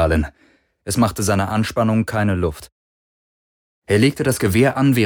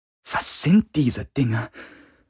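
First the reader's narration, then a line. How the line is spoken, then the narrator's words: Quiet, fearful. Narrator (German): Sie sprach leise, als fürchte sie, die Druhun könnten sie hören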